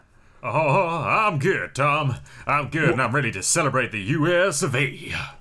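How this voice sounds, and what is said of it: Bad Elvis impression. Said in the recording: “doing a bad Elvis impression”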